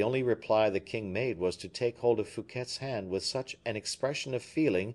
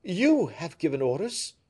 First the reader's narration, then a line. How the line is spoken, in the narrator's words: exclaimed the king